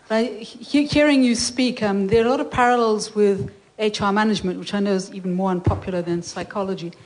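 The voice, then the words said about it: Unusual accent. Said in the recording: “Also got a funny accent.”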